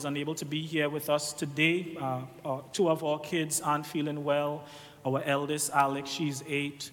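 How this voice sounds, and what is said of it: Trinidadian Caribbean accent. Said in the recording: “my accent... This is an accent you don't often hear... Everybody thinks Trinidadians are Jamaicans. That is not true... this one is unique”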